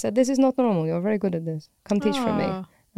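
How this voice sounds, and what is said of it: Terrible put-on Italian accent. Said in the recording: “a really terrible Italian accent ... a pretty terrible Italian accent”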